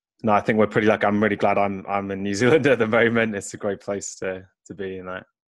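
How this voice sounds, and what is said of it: Welsh accent. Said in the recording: “where is your accent from? ... Originally, I'm from Wales in the UK.”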